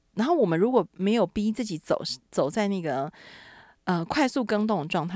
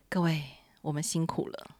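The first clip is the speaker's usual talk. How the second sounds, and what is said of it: Heavy, steady, solemn voice. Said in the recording (Chinese): “这个时候要用沉重一点的声音、稳重一点的声音说”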